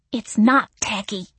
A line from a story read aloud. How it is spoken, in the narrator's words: Missy hissed through clenched fangs